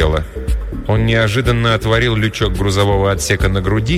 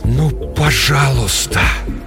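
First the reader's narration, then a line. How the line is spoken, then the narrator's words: Quiet whisper. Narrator (Russian): тихий шепот Фила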